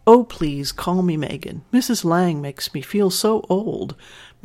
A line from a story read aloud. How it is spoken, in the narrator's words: Matthew laughed with her